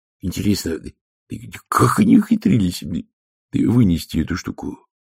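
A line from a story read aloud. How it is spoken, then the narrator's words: Thoughtful question. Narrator (Russian): задумчиво спросил Шноби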